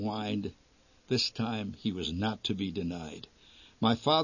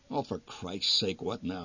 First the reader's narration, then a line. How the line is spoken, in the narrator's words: the old man muttered